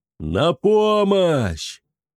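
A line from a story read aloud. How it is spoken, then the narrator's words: Final desperate shout. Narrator (Russian): последние слова, что он успел крикнуть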